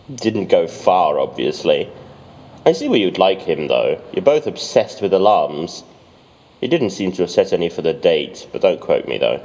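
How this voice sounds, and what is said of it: British accent. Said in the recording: “Why do you even have a British accent?”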